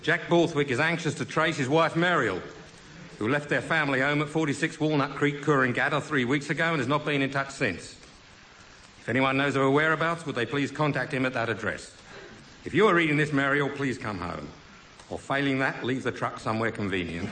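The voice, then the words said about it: Attempted Australian accent. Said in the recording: “I may have to attempt an accent with this one, Barry, because it's from the Coorangatta Herald, New South Wales.”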